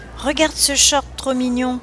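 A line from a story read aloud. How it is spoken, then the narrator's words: Exclaimed. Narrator (French): s'exclama-t-elle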